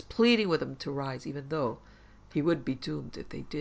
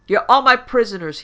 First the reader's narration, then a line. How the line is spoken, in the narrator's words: yelled